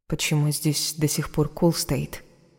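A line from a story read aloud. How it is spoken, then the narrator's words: Plain. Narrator (Russian): спросила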